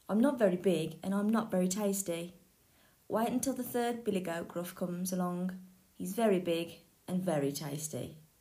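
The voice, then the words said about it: Rather soft goat voice. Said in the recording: “in a rather soft voice”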